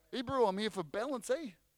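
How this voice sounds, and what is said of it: Poor put-on New Zealand accent. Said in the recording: “That's my Kiwi accent, sorry. it's really bad”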